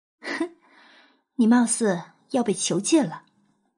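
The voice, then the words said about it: Quiet teasing voice. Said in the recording (Chinese): “小声揶揄”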